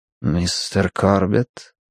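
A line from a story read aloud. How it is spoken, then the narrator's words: Quiet, well-bred voice. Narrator (Russian): произнес он тихим голосом воспитанного человека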